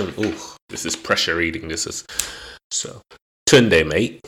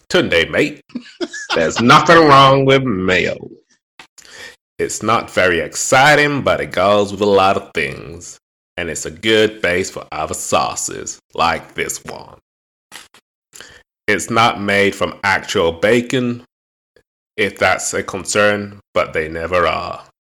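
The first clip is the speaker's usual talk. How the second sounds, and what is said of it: Put-on accent imitating another person. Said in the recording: “This is the guy's accent, by the way. ... Do you like my accent, yeah?”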